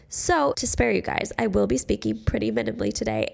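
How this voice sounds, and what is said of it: Sick, congested nasal voice. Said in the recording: “the cold, like sick, nasally voice ... that is exactly what I have right now ... if you can tell in my voice, there's a little bit of sickness”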